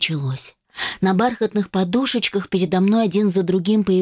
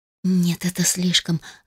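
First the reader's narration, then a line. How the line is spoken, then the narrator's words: Breathless exhale. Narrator (Russian): выдохнула я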